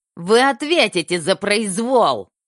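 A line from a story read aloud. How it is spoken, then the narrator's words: Nasty shrill voice. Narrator (Russian): Голос доктора был мерзким, противным и визгливым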